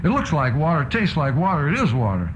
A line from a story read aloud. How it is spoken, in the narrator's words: Angrily, shouts